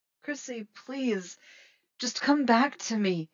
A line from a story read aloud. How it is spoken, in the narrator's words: Eddie had begged